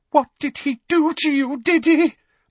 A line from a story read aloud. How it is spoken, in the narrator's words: Aunt Petunia said in a quavering voice